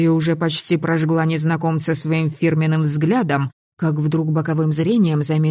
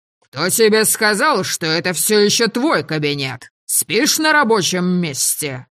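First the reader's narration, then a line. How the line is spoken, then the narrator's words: Roaring retort. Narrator (Russian): взревел гном в ответ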